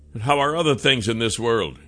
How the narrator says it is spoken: said

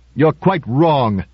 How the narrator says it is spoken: said Criss angrily

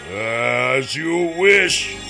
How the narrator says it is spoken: Kryzak said in his deep voice

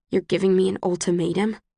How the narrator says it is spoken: I try to keep my voice low so the others can't hear

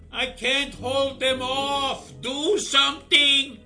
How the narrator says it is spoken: He yelled down

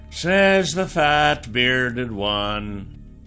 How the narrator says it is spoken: the stranger said, in a cool, sanguine voice

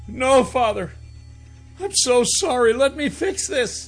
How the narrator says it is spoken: My heart began to sputter in my chest as I fell to my knees, tears streaming down my cheeks, and begged

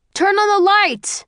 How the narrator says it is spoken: Someone shouts

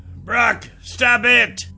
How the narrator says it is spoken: Rennie yelled

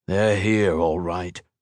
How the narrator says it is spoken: Marcus assured him grimly

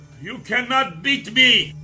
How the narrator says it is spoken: screamed

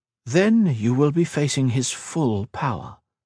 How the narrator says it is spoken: she replied

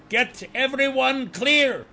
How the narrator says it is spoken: Bezog yelled

